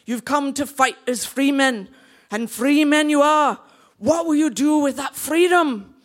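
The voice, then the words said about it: Attempted Scottish accent. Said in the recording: “I'll give my Scottish accent a go”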